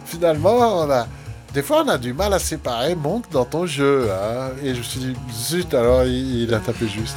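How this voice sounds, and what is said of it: Poorly imitated Swiss French accent. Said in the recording (French): “Bon, je fais mal son accent suisse.”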